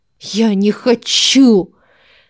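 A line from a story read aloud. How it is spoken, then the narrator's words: Hiss. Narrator (Russian): Зашипела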